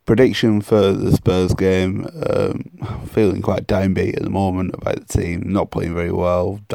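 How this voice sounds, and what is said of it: Hoarse, nearly lost voice. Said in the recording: “As you can tell, I've pretty much lost my voice from the weekend”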